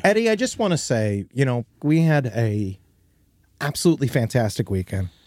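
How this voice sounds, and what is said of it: Hoarse, worn-out voice. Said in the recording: “As you can hear, my voice is destroyed. ... my voice is destroyed.”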